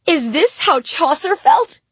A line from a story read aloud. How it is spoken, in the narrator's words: I cried out to the big black darkness